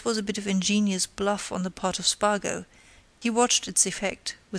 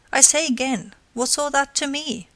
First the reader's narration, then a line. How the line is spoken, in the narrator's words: she exclaimed